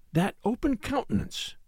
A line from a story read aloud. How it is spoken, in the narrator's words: replied his wife, in the same hushed voice, yet earnestly